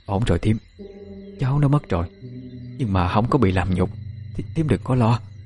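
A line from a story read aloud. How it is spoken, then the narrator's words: Hurried muttering woman. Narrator (Vietnamese): Một người đàn bà vội, miệng lẩm bẩm nói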